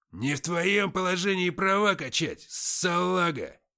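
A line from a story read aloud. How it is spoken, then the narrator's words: Howling. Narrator (Russian): взвыл Антоха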